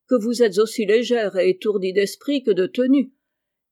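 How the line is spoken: Gruff retort. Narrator (French): répliqua d'un ton bourru

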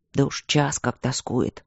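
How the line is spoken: Whisper. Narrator (Russian): шепотом ответил он

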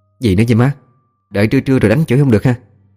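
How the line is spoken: Sulky, resentful. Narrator (Vietnamese): hậm hực nhăn nhó

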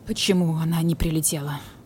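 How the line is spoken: Hoarse question, creature. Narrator (Russian): хрипло спросил барсук-кот

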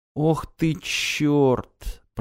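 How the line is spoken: Muttered. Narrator (Russian): пробормотал Рек

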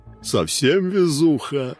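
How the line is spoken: Giggle from behind. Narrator (Russian): хихикнул сзади

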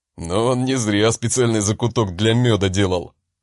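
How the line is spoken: Chuckling. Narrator (Russian): хохотнул Харальд

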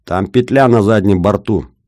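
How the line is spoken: Shout. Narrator (Russian): крикнул Бобров

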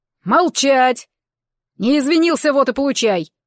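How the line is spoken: Bellowing bull. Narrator (Russian): рявкнул бык

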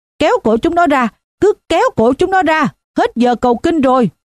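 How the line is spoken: Drunken shout. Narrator (Vietnamese): Một tên say rượu khác hét

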